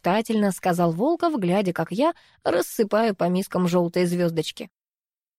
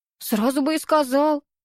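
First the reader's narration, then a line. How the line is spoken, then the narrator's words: Grumbling. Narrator (Russian): проворчала я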